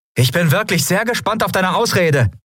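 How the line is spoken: Called out. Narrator (German): rief Endriel

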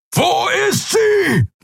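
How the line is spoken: Roaring. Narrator (German): brüllte er

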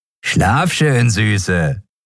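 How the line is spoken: Farewell with dirty laugh. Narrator (German): sagte der eine zum Abschied und lachte dreckig

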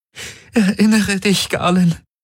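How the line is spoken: Pleading. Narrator (German): flehte Kirai

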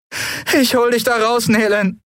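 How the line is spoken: Pained, anguished promise. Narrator (German): versprach Endriel mit gequälter Stimme

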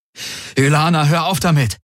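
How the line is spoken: Exclaimed. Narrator (German): rief er aus

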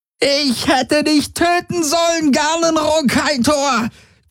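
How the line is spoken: Shrieking. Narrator (German): kreischte sie

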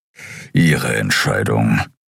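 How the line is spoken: Grumbling. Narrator (German): brummte Keru

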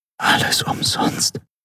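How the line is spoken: Whisper. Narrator (German): flüsterte sie mit geschlossenen Augen

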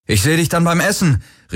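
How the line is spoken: Called out. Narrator (German): rief er Kirai zu

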